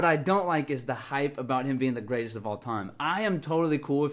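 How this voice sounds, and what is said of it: Usual voice. Nothing is said of it.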